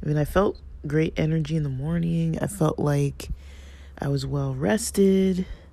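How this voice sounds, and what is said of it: Slightly scratchy voice. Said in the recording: “you can probably hear it in my voice. It's a little scratchy.”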